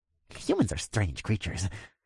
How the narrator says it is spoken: I heard him mutter to himself

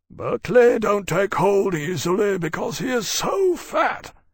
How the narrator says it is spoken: said sleepily

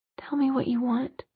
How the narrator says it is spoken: he said in a whisper that couldn't quite disguise the hoarseness in his voice

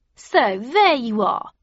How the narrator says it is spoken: cried Aeonis, grinning

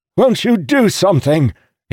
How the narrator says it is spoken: shouted

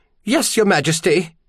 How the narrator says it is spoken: she squeaked

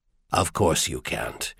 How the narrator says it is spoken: he said softly

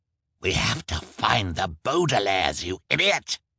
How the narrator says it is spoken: Olaf snarled

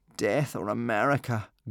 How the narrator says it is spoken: groaned Hiccup, Fishlegs and Kamikaze

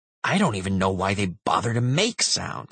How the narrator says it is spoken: he grumbled

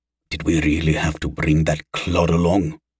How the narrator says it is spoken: he hissed into Havan's ear

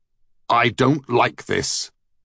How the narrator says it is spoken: said Thor testily

